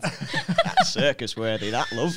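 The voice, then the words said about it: Put-on Yorkshire accent. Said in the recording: “In a proper Yorkshire accent.”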